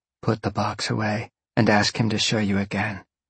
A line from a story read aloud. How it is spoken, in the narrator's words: she whispered